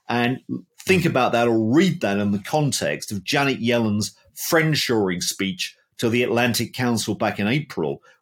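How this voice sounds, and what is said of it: British accent. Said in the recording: “you're a Brit based on the accent”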